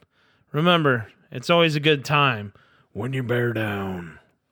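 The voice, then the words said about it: Poor imitation of another person's voice. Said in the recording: “my best impression ... That was horrible.”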